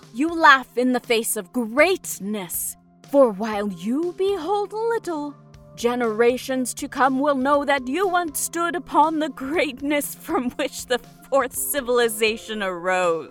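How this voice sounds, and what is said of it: Mock ceremonial voice. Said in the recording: “in a mock ceremonial voice”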